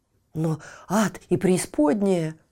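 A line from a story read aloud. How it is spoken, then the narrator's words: Exclamation. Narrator (Russian): воскликнул один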